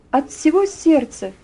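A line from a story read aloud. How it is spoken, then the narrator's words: Ringing, joyful voice. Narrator (Russian): ответила она звонким, радостным голосом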